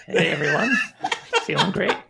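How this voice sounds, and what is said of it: Put-on radio announcer voice. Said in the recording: “what's your radio voice?”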